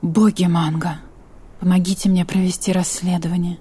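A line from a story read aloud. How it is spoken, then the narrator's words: Muttered under breath. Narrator (Russian): пробормотала себе под нос Каролина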